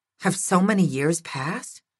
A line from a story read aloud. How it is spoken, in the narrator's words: He smiled sadly